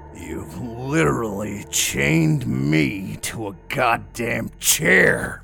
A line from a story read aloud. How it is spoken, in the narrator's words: I roared